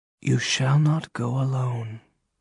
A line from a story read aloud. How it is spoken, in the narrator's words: she answered, her voice a deep whisper